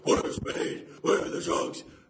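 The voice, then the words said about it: Imitated Batman voice. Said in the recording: “your Batman voice, a little bit soft, mate, a little bit soft ... I purposefully smoked 2 packs a day so I could get a tracheotomy when I do my Batman voice ... That took years of vocal coaching.”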